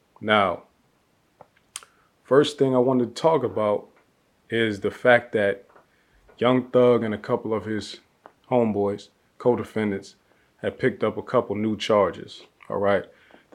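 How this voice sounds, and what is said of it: Dry, tired-sounding voice. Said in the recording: “it's a little bit late right now for me anyway, so you might hear it in my voice. I'm a little dry. ... I'm a little bit dry right now.”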